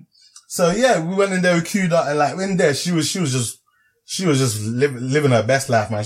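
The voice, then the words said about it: London accent. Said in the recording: “she clocked the accent in. She's like, oh, you guys from London?”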